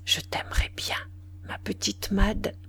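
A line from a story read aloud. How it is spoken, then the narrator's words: Very soft murmur. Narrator (French): Il murmura tout bas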